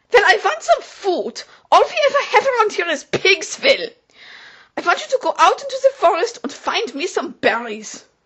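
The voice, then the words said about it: Atrocious foreign accent speaking English. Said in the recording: “her accent was absolutely atrocious”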